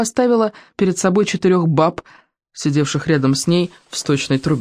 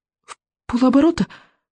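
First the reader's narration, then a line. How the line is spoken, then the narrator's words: Hopeful sob. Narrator (Russian): с надеждой всхлипнула Камикадзе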